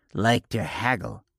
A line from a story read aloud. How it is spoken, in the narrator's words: said, with something resembling a sneer